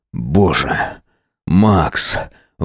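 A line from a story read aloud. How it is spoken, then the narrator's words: Breathed out between thrusts. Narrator (Russian): выдохнул я между толчками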